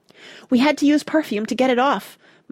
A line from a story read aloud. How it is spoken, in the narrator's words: Mona explained hastily